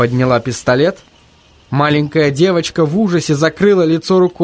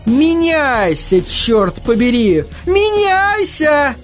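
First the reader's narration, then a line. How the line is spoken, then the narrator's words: Screaming. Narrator (Russian): вопила мисс Сидли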